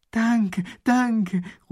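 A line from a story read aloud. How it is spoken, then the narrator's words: Excited shout. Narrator (German): ruft der Eskimo begeistert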